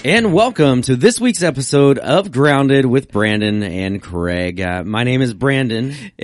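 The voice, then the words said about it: Sports announcer style delivery. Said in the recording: “You sound like a sporting announcer”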